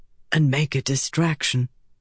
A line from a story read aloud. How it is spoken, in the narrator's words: Gawain whispered